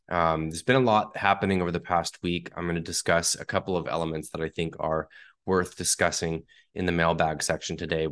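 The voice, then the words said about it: Sick-sounding voice. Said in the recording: “Definitely been pretty sick here ... You can still hear it in my voice”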